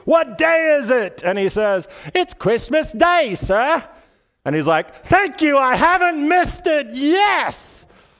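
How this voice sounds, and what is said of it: Attempted English accent. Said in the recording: “I can't do an English accent”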